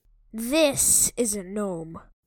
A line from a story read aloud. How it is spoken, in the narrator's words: he said grimly